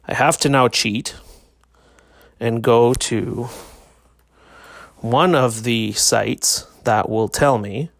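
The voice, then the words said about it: Flat, robotic, subdued voice. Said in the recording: “I sound like a robot tonight, don't I? I'm trying not to raise my voice”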